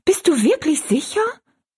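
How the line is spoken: Dismayed cry. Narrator (German): rief Rosalie bestürzt

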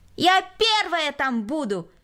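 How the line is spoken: Shout. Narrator (Russian): крикнула Кристина

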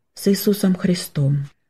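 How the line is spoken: Quiet addition. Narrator (Russian): тихо добавил

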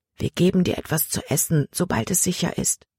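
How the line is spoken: Whispering. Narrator (German): flüsterte Samuel ihm zu

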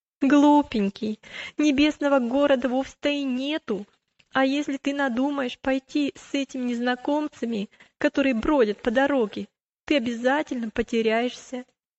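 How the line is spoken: Laughing female voice. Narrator (Russian): рассмеялась, и сказала

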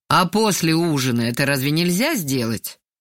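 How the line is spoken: Displeased asking. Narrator (Russian): поинтересовался недовольным голосом

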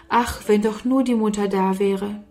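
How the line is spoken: Sighing. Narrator (German): seufzte Sarah

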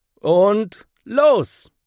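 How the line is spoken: Calling out. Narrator (German): ruft Henry

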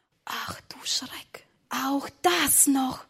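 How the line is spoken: Whisper in ear. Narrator (German): flüsterte ins Ohr

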